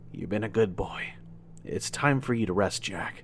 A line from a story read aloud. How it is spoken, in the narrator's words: I whisper